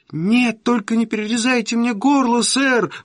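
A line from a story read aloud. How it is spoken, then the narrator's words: Terrified pleading. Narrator (Russian): взмолился я в ужасе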